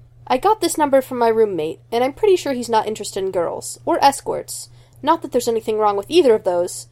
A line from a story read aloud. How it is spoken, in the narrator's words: he adds hastily, wincing